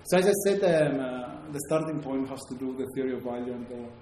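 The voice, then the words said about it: Strong Greek accent. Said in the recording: “My accent is obviously very Greek”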